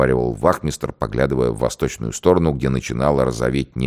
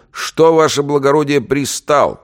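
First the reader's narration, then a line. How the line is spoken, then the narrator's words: Shout. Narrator (Russian): крикнул он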